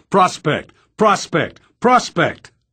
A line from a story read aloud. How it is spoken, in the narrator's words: simultaneous barks of